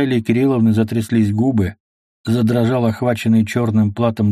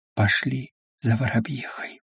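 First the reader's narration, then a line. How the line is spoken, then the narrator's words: Whispered. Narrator (Russian): прошептала царица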